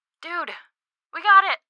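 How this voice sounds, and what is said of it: Excited yelling. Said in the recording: “Sorry for yelling right into your ear like that. I'm just excited.”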